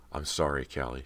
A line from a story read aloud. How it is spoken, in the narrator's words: she murmured softly